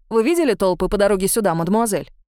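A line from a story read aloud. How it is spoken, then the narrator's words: Angry question. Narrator (Russian): сердито поинтересовался Приво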